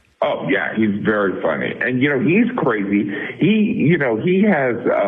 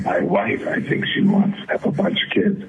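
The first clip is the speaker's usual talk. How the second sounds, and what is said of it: Raspy imitated male voice. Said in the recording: “he has that raspy voice”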